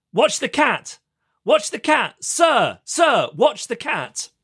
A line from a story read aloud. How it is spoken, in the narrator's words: Start shouting to me